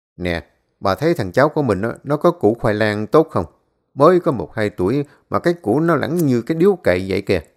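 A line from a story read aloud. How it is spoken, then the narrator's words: Bursting laughter. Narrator (Vietnamese): ông chợt cười phá lên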